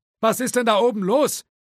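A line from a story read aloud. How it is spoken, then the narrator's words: Called from upstairs office. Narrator (German): rief der verschrobene, eigenbrötlerische Grafikdesigner aus dem Büro im ersten Stock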